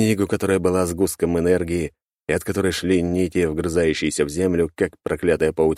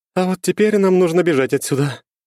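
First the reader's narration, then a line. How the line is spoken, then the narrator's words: Breathless. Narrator (Russian): выдохнула черноволосая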